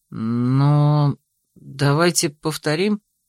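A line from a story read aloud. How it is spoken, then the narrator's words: Uncertain. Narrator (Russian): неуверенно проговорил напарник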